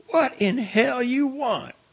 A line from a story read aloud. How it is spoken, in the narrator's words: she shouted